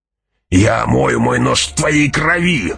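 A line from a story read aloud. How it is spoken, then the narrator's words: Furious growl. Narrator (Russian): яростно прорычал Джамис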